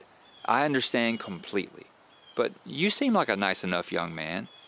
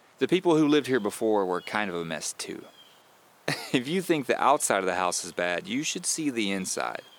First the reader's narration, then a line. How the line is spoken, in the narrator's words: said with a laugh